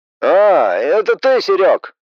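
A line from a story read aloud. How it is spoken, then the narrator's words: Muffled male voice. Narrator (Russian): Его голос звучал глухо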